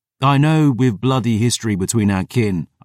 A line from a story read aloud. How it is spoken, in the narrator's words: said